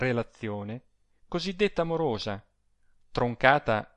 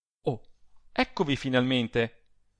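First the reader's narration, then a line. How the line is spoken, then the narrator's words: Exclaimed. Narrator (Italian): rispose all'esclamazione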